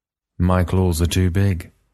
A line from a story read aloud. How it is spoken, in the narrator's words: Maximus said sadly